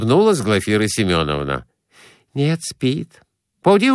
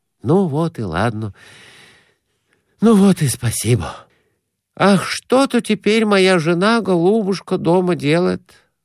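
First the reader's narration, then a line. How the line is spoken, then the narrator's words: Sighing. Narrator (Russian): вздохнул Конурин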